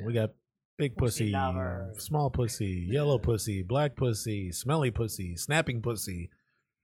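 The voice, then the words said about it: Imitates another person's voice. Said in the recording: “That was my best Cheech Marin impression right there.”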